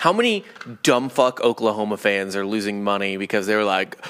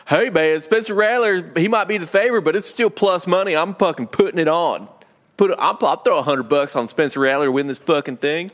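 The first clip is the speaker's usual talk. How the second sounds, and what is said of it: Exaggerated southern Oklahoma accent. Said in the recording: “Is that an Oklahoma accent? ... That's too southern.”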